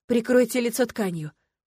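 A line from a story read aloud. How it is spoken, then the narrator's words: Hoarse rasp. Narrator (Russian): прохрипела я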